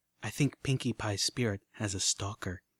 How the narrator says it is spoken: Velvet whispered

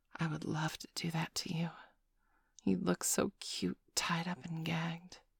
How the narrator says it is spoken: whisper into your ear

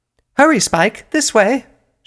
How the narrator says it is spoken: she called out

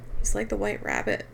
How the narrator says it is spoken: Meg giggled nervously

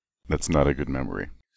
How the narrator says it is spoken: Steelhooves rumbled

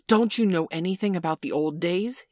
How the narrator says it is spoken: He cried

